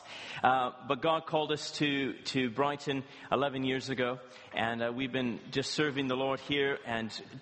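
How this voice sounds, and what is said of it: Canadian twang. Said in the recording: “I'm originally from Canada, as you can tell from the twang in my voice. I'm not from these parts.”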